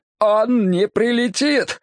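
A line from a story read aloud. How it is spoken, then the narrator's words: Hoarse rasp. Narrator (Russian): хрипит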